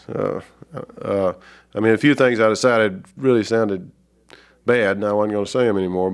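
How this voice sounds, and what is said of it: Southern American accent. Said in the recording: “a Southern accent ... people just listen to my accent sometimes”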